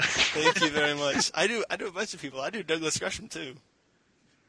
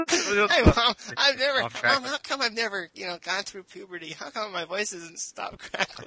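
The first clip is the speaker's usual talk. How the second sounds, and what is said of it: Imitates a cartoon character's young voice. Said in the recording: “It's like Stuart Little ... That's a scarily accurate imitation.”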